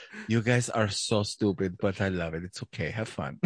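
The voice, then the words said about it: Sweet generic put-on foreign accent. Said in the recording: “that sweet accent she has ... She's not from South America. ... I'm just doing a generic accent.”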